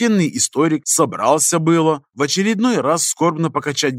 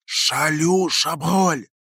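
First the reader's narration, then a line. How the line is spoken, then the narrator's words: Loud hissing whisper. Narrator (Russian): Свистящим на всю келью шепотом объявил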